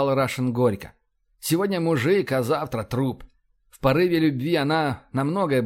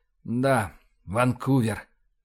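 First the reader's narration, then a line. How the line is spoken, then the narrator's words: Sighing. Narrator (Russian): вздохнул Рашин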